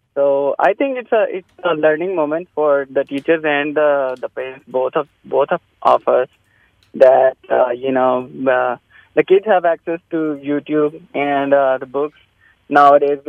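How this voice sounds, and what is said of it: Non-native immigrant English accent. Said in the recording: “I'm sorry for my accent. I'm an immigrant.”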